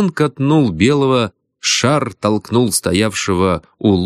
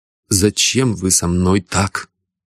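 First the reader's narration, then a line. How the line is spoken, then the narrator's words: Trembling tearful voice. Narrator (Russian): Бородин дрогнувшим голосом, будто со слезой, спросил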